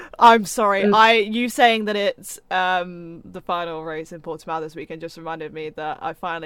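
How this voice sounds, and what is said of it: Usual voice. Nothing is said of it.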